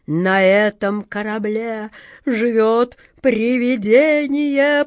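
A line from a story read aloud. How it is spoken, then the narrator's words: Moaning. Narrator (Russian): простонал длинный Джек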